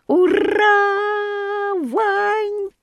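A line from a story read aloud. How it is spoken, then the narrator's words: Frenzied shouting. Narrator (Russian): А Петрушка неистово кричал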